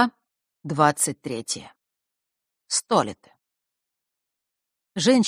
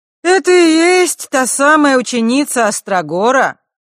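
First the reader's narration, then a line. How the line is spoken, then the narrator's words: Loud question, self-directed. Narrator (Russian): громко спросила она, словно бы у самой себя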